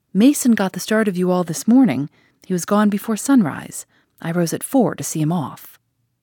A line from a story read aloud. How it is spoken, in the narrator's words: saying cheerfully